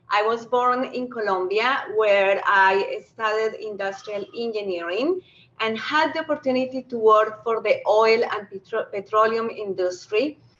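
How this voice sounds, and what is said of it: Noticeable foreign accent. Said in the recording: “I happen to be a Canadian with an accent.”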